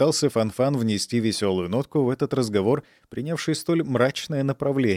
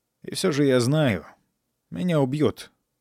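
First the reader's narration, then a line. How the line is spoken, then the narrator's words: Dejected boy. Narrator (Russian): уныло ответил мальчик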